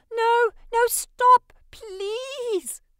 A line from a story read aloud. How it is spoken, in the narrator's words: the bear whined